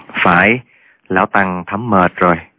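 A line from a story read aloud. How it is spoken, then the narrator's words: Weary old monk sighing. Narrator (Vietnamese): Giác Diễn thở dài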